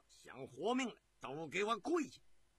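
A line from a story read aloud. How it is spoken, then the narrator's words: Roaring. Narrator (Chinese): 大胡子吼道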